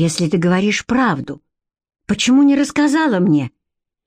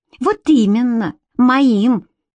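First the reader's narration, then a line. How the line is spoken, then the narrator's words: Angry shriek. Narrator (Russian): злобно взвизгнула Карделла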